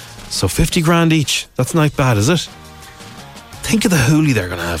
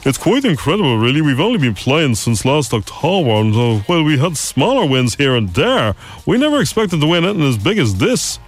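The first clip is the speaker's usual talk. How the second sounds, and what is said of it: Silly put-on voice. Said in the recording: “silly voice”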